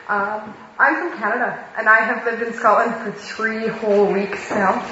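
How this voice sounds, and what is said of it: Canadian accent. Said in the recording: “I'm the one with the funny accent.”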